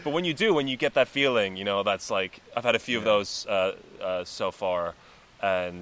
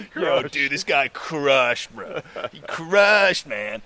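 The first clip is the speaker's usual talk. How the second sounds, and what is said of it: Put-on American accent. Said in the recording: “that's the American accent.”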